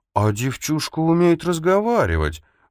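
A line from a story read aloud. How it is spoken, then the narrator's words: Feigned admiring exclamation. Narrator (Russian): В притворном восхищении воскликнул Ричиотти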